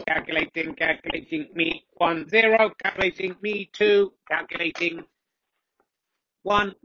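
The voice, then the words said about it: Robotic voice. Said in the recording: “Robot Voice”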